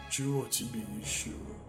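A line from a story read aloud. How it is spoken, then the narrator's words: Hissing whisper. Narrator (Russian): отозвался маг свистящим шепотом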